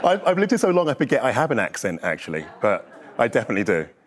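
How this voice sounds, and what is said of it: Speaks with a noticeable accent. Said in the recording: “Oh, your accent. My goodness. ... No, your voice is, like, everything.”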